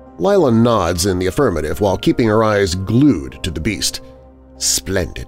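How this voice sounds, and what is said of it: Usual voice. Nothing is said of it.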